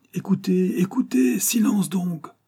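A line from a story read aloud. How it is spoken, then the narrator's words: Many voices shouting. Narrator (French): s'écria-t-on de toutes parts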